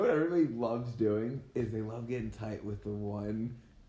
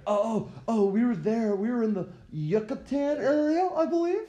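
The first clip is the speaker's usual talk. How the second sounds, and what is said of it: Mock tourist voice with accent. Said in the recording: “Throw on a little accent.”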